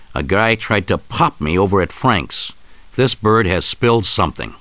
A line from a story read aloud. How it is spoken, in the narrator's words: Rico confronts his betrayers, snarling